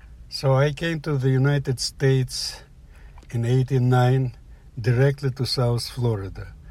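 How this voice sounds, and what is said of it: Slight Russian accent. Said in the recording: “I have a slight accent? ... you maybe hear that I have a Russian accent.”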